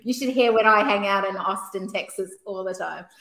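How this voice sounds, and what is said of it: Speaks with a noticeable accent. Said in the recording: “I have a funny accent, so I am very much depends what country you're uh, I'm in, depends how thick that accent becomes”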